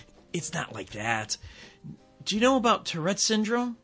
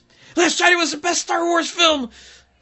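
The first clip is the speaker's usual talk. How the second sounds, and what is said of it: Sudden shouted outburst. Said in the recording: “can't stop shouting”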